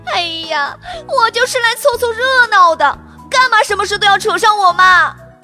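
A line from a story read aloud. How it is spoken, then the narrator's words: Sobbing. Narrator (Chinese): 小表姐哭哭啼啼地说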